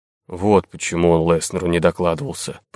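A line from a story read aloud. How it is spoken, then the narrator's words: Mutter. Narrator (Russian): пробормотал Варга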